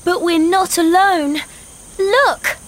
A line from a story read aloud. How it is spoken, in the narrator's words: cried Anna